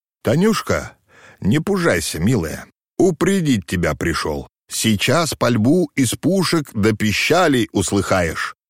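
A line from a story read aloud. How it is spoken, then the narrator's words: Slightly unsteady voice. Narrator (Russian): не совсем твердым голосом произнес Максим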